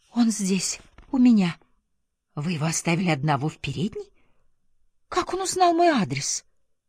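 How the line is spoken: Frightened whisper. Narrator (Russian): от испуга прошептала

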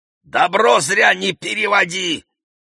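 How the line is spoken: Shout. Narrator (Russian): крикнул Сережа

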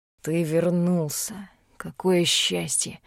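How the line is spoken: Mumbling. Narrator (Russian): пробормотал лорд Эйден Роукин

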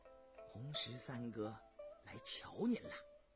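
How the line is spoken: Soft-spoken. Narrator (Chinese): 红酒对允祥轻声说

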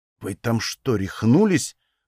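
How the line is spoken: Whisper. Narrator (Russian): прошептал я

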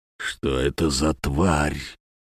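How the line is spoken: Barely audible whisper. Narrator (Russian): шепотом едва слышно спросил он

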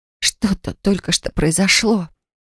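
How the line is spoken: Breathless whisper. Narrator (Russian): Тяжело дыша, прошептала я

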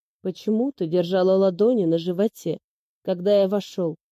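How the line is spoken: Icy question. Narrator (Russian): Ледяным тоном спрашивает Лис

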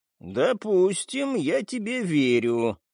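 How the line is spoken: Drawling. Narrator (Russian): протянул жирафа

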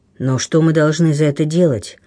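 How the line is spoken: Asking. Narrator (Russian): вопросил рыбак

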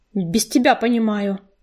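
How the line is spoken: Snapping retort. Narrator (Russian): огрызнулась рыжинка

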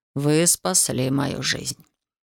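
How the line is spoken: Very quiet, native English. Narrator (Russian): Доктор очень тихо сказал на правильном, невероятно родном английском

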